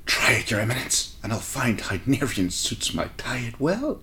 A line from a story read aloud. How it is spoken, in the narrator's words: she hissed